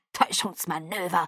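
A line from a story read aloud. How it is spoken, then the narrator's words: Curt. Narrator (German): sagte barsch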